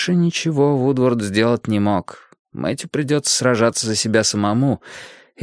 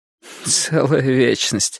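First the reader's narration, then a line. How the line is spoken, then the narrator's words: Dry, sarcastic laugh. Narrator (Russian): сухо и язвительно засмеялась она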